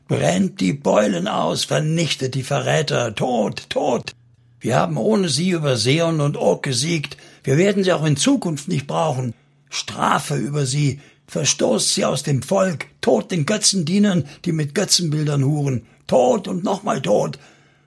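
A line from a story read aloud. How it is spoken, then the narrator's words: Called out. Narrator (German): Er rief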